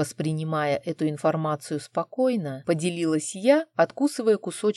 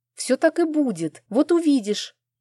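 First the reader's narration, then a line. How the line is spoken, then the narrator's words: Emotional exclamation. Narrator (Russian): эмоционально воскликнула ослы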